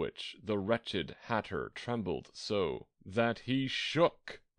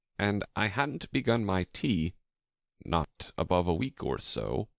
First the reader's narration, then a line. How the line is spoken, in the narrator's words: the hatter began in a trembling voice